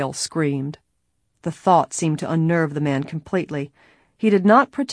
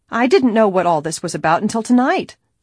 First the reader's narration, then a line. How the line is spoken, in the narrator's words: she cried angrily